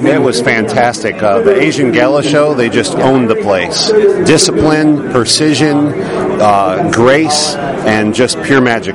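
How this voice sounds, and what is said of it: New York accent. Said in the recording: “You have a good little accent, don't you? ... Have a Canadian ... New York. ... Accent.”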